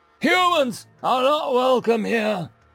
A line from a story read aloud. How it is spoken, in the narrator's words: the crowd shouted